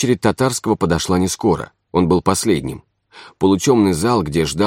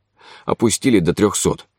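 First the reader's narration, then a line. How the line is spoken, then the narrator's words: Gloomy. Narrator (Russian): мрачно сказал он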